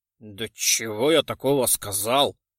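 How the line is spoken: Frightened mumble. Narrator (Russian): Пробурчал заметно напуганный Вильяминов

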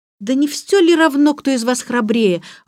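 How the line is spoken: Exclamation. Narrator (Russian): воскликнула Джейн

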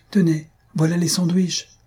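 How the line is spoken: Exclaiming. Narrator (French): s'écria Thalie

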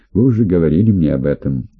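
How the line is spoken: Plain. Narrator (Russian): ответил я

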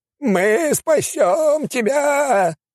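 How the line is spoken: Abbot shouting. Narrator (Russian): кричал настоятель Рафику

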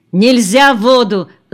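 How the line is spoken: Shouted. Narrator (Russian): закричал на них Олег

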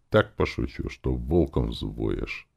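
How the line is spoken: Muffled mutter fading away. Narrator (Russian): Бормотание за дверью стало удаляться

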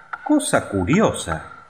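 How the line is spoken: Exclaimed. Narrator (Spanish): exclamó

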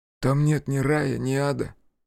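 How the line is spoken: Snorting. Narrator (Russian): хмыкнул он

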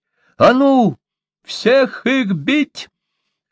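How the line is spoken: Hoarse bold shout. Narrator (Russian): хрипло крикнул отважный Покпа

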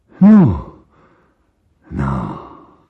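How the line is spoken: Pale nervous mutter. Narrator (Russian): забормотал бледный Мигуев, кривя рот улыбкой

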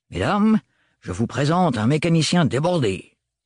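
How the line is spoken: Sneering laugh. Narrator (French): ricana-t-il

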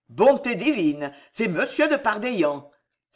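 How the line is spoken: Forced joy, sounding gloomy. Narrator (French): s'écria l'ex-moine d'un accent qui voulait être très joyeux et qui n'arrivait qu'à être lugubre

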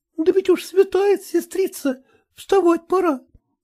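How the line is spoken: Timid. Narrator (Russian): робко отвечала Аграфена

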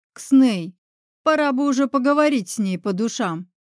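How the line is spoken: Barked. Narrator (Russian): рявкнула

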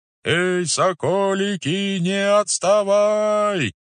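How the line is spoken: Muffled distant calls. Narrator (Russian): глухо доносились перекликающиеся голоса

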